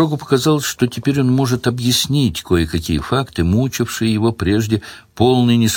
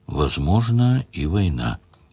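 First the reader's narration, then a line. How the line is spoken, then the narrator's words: Quiet. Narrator (Russian): Ливерлин сказал тихо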